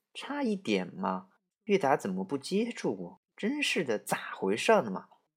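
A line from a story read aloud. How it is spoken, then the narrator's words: Grumbling mutter. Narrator (Chinese): 冬霜，他还在嘀咕着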